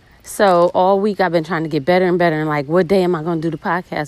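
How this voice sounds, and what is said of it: Sick, rough-sounding voice. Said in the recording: “I'm not feeling my best ... I had a fever on Monday ... My voice sounds fucked up ... I'm sick”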